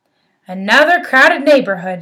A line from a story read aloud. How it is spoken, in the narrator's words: she grumbled